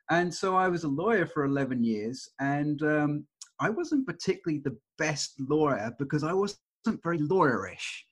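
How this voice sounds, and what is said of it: English accent. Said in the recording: “You mostly can hear that I have the English accent here”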